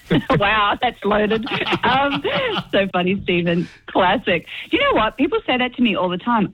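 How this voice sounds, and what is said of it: Australian accent. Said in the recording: “You've still kept your full Aussie accent ... I always forget that I have an Australian accent”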